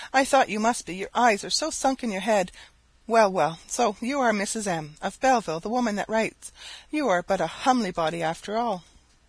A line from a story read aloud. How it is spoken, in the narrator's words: exclaimed she